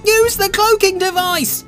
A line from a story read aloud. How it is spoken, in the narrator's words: cried Raphael